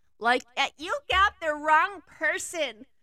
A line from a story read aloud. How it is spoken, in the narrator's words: she yelled as she was hoisted into the air